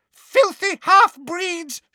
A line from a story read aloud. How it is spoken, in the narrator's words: she screamed